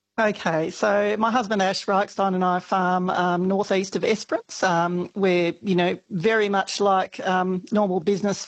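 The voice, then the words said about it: Croaky voice. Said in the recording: “My voice is a bit croaky too.”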